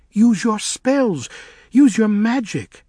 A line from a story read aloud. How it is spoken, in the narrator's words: exclaimed Five